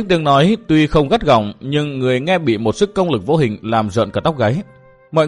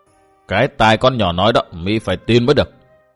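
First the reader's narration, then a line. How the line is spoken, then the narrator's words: Cold echoing voice. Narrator (Vietnamese): một giọng nói lạnh lùng vang vọng lại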